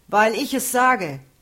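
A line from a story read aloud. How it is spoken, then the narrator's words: Called back. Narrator (German): rief Daniel zurück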